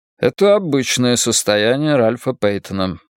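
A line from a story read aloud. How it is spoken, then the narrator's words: Dry remark. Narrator (Russian): сухо заметил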